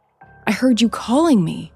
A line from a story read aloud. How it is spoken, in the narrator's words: Lauren said, her voice shaking